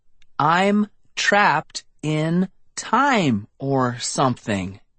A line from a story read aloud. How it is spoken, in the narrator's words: I said, speaking each word slowly and clearly